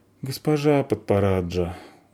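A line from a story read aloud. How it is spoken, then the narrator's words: Glum, dejected. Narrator (Russian): уныло сказала Заверушка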